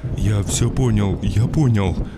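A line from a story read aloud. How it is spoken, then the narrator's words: Old man muttering. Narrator (Russian): Бормотал дед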